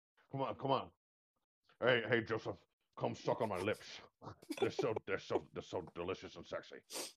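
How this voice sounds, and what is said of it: Imitates another person's voice. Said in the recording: “Why am I doing a Sean Connery accent right now?”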